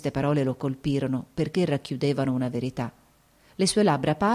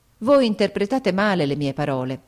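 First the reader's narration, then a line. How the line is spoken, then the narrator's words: Exclaiming. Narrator (Italian): esclamai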